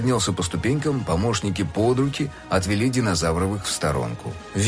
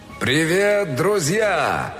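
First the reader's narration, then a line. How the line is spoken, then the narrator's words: Shouted across hall. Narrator (Russian): крикнул он на весь зал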